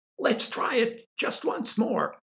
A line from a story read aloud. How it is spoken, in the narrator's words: called out to the tars in the bleachers